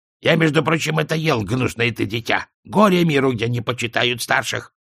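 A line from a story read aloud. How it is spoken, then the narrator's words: Grumbling. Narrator (Russian): А родоначало проворчало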